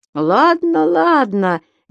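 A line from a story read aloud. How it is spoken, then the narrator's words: Cheerful reply. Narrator (Russian): весело ответил господин Пепперминт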